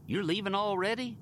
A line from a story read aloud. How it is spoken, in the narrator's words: Mater asked them